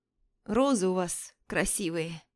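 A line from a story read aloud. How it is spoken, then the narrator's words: Ingratiating hoarse wheeze. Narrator (Russian): заискивающе хрипит совсем не испугавшийся дурак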